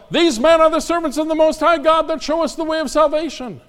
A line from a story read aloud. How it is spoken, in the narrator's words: she'd yell